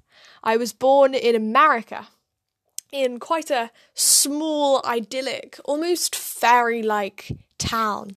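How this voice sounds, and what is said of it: British accent. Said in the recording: “my quite British accent”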